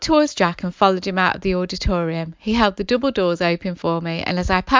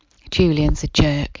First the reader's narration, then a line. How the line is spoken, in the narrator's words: he whispered